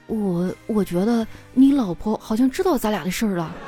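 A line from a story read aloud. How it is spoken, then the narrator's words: Low voice. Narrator (Chinese): 老王低声的说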